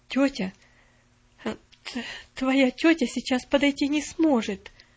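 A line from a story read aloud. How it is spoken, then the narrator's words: Halting answer. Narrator (Russian): запинаясь, ответила она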